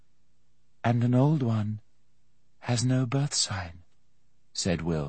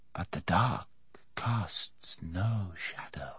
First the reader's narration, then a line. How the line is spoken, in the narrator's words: the rider said softly